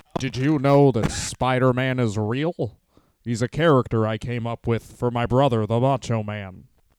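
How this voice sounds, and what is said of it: Imitates another person's voice. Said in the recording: “Is that a good Poffo? Do I have my first good impression?”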